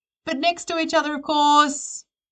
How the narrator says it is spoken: Karen yells out

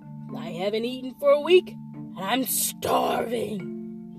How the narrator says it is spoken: bellowed

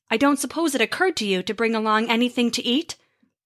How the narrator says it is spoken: Thor grunted

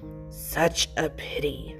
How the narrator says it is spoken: the voice in the roof murmured

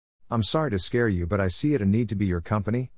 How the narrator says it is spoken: Lima Katsuo said

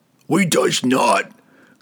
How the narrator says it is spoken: growled the giant above the dwarf

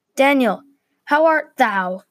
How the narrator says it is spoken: shouted a guard from the other watchtower

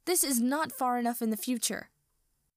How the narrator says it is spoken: shouts

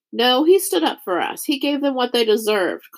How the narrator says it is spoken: cried someone else

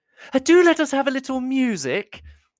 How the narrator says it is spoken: cried Mrs

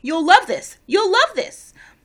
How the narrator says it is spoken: In response to her nervous expression, kept shouting

